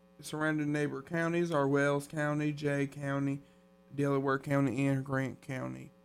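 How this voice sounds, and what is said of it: Sudden southern accent. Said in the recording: “I developed a southern accent all of a sudden”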